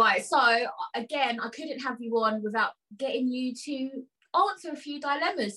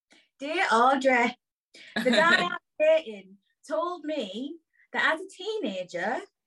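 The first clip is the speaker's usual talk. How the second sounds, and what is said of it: Put-on northern accent. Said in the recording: “I'm going to do them in an accent ... they're from up north”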